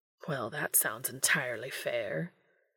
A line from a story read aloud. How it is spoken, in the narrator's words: Crowley muttered under his breath